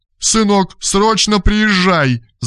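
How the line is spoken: Whimpering woman. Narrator (Russian): захныкала женщина

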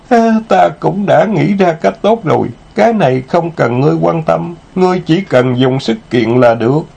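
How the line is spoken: Moaning. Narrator (Vietnamese): nàng ta rên rỉ

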